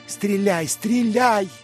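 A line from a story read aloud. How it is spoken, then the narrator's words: Bloodthirsty furious shout. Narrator (Russian): крикнул священник с кровожадной яростью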